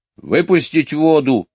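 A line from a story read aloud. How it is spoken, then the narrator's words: Very rough voice question. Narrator (Russian): самым грубым голосом спросил он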